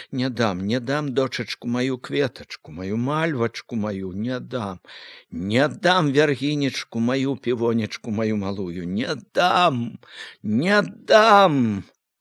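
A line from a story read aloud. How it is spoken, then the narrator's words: Breathless grief-stricken whisper. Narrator (Belarusian): шаптала, задыхалася ад гора, ад любасці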